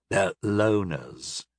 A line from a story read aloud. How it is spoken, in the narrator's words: he sneered